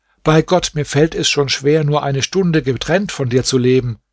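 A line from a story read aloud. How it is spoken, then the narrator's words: Called out. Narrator (German): rief Nureddin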